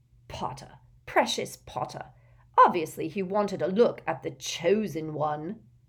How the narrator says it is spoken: sneered Malfoy

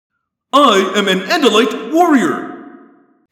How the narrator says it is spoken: he said harshly

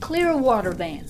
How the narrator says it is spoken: cried Abigail, finally unable to stand the tension

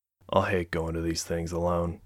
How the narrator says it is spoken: whispered in explanation

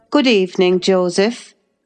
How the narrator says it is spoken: I said coldly

